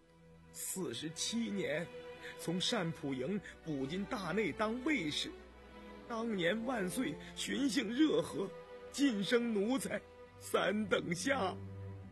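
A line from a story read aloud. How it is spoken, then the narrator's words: Hoarse, choked with emotion. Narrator (Chinese): 张五哥想起老主子康熙，声音不禁变得嘶哑哽咽了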